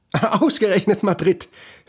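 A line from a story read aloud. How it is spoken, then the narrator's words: Said laughing. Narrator (German): hört er seine Mutter sagen und lachen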